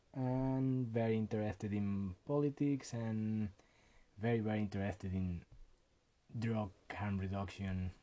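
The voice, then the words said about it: Mexican Spanish accent. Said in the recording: “Pardon me for my accent. ... Mexican Canadian, born in Mexico”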